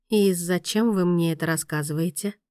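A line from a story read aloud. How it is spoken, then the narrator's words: Quiet. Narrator (Russian): тихо спросила Мия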